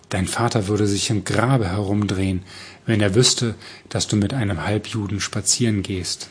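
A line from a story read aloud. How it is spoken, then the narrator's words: Plain. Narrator (German): sagte Roman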